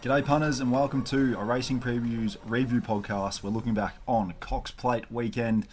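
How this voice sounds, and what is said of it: Worn-out, unwell-sounding voice. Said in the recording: “If listeners can't tell from my voice already, I'm no good. I'm no good at all.”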